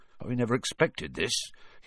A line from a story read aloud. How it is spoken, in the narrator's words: he said in a low, worried voice